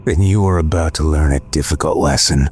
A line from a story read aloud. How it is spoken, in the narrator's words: he said in a low tone